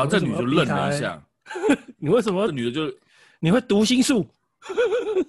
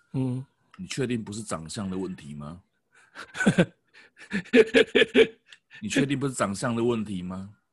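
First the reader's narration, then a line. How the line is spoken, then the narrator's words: Half-joking question. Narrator (Chinese): 半开玩笑的问他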